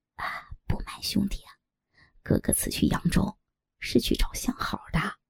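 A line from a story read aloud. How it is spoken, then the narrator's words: Sly, low voice. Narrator (Chinese): 尤八一脸坏笑，压低声音道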